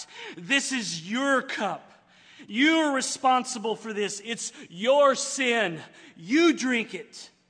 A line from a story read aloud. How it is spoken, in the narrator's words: turn his tearful eyes toward you and me and shout